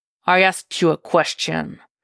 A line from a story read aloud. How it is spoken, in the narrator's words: Jason growls